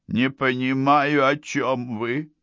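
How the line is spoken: Tired reply. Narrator (Russian): ответил устало

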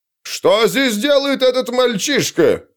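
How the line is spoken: Shrill shout. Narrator (Russian): визгливо крикнул Памфил

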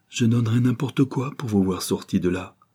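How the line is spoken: Abrupt exclamation. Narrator (French): s'écria-t-elle brusquement

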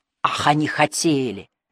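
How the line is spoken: Muttered through teeth. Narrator (Russian): вновь процедил он ей в ухо

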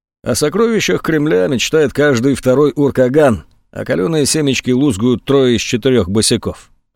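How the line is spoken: Bored voice. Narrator (Russian): произнес скучающим голосом

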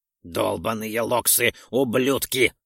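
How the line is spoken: Angry spitting. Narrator (Russian): зло сплюнул Ролдон

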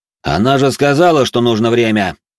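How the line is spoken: Loud. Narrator (Russian): громко произнес я

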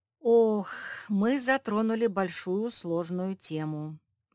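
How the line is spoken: Sighing. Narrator (Russian): вздохнул Черчилль

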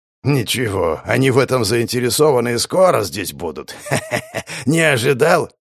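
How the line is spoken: Hoarse laughter. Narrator (Russian): хрипло рассмеялся

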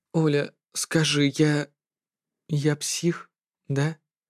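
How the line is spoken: Weak voice. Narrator (Russian): Слабым голосом спросил

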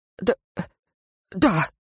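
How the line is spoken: Giant's convulsive sigh. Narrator (Russian): судорожно вздохнул исполин

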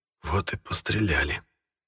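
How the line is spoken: Gunner's whisper. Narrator (Russian): прошептал наводчик первого орудия

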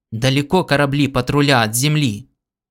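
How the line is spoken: Hoarse exclamation. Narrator (Russian): воскликнул хрипло

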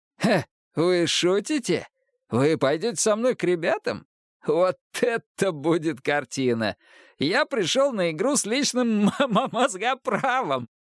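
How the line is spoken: Guffawing laughter. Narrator (Russian): Шелли хохотал

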